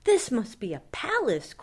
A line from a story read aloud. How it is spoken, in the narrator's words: Corduroy gasped